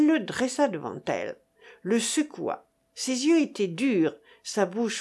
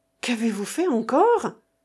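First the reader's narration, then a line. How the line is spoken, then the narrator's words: Very anxious exclamation. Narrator (French): s'écria-t-elle, terriblement anxieuse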